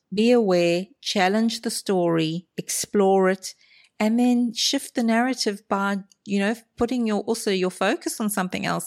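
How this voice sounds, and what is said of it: Melodious, inviting accent. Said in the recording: “I love your accent ... the melodious sound of your voice ... inviting accents like that”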